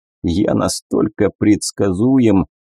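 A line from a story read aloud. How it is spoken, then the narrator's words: Sad, smiling. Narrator (Russian): печально улыбнулся я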